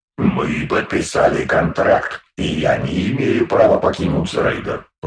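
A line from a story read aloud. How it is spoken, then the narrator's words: Booming drone. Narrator (Russian): прогудел Листер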